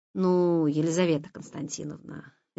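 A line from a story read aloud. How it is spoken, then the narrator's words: Lazy drawl. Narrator (Russian): лениво протянул редактор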